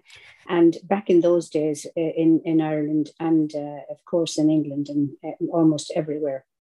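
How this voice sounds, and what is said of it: Irish accent. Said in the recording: “with an accent like mine, I am Irish.”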